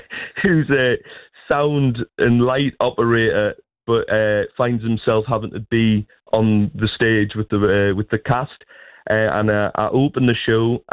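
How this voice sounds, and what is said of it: Northeast English accent. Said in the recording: “I get to use my own accent ... I really am representing the Northeast ... the Northeast accent”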